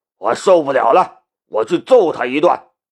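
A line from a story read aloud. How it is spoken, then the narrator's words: Angry shout. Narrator (Chinese): 老大怒喝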